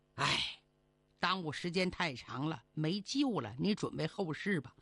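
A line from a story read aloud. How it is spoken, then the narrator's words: Sighing doctor. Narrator (Chinese): 郎中 最后叹了口气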